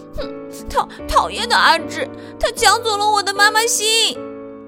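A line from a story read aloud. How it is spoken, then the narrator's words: Crying. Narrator (Chinese): 小苹果一边走一边哭着说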